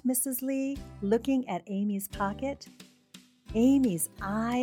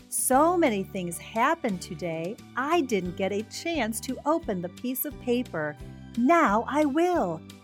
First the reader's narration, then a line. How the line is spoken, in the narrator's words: exclaimed Amy